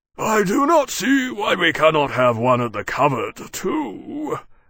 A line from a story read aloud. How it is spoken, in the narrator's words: Maximus said, rumbling in dissatisfaction